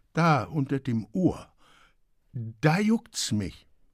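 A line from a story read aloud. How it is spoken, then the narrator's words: Stammering. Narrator (German): stammelte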